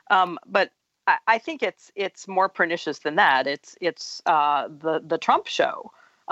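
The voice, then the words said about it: Slightly congested voice, clearing throat. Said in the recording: “I have a little bit of a cold, so I'm doing a lot of throat clearing.”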